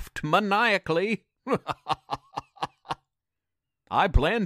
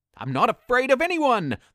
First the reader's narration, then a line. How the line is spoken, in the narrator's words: the trick screamed